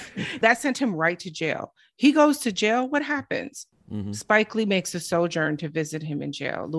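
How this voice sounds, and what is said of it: Usual voice. Nothing is said of it.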